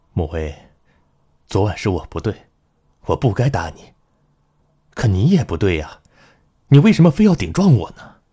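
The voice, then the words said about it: Warm, soft gentle voice. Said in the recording (Chinese): “用温软的声音说”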